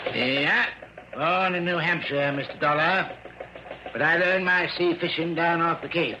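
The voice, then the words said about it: New England accent. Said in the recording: “helped to account for his speech. Instead of a southern drawl, it was pure New England.”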